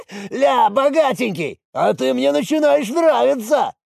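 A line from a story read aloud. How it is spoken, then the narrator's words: Shouted. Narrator (Russian): крикнул он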